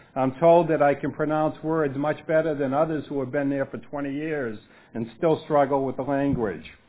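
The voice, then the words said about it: Boston accent. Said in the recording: “my Bostonian accent”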